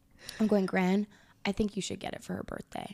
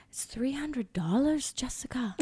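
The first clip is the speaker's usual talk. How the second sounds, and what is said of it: Poor imitation of Scottish accent. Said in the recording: “in her Scottish accent ... Or I can't even do that properly.”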